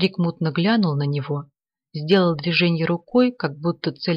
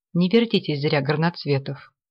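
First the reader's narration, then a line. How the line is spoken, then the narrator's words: Calm. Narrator (Russian): спокойно говорил Ганин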